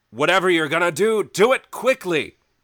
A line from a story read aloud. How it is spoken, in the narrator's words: He yells up